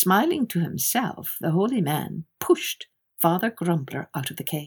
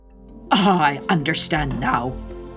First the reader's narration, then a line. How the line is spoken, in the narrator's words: muttered the good man